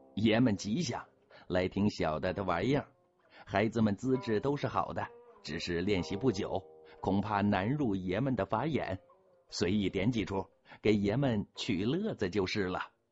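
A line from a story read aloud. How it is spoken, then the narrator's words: Cheerful, grinning. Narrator (Chinese): 笑嘻嘻的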